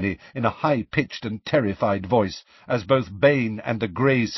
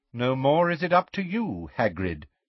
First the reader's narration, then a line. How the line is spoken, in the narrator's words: said Magorian smoothly